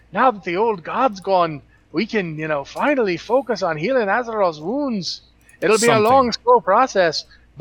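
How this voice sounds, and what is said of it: Bad fake Scottish accent. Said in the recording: “this terrible fake accent ... fake Scottish”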